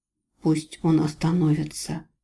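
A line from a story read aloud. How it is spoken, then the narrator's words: Whisper. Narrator (Russian): прошептал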